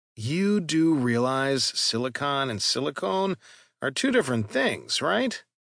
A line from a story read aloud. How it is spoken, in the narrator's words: Callan added dryly